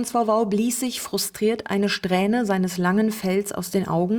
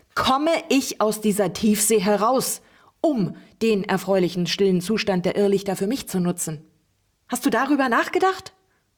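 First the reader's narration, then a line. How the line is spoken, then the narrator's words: Shouting right into ear. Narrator (German): schrie Uliana dem Bänderog direkt ins Ohr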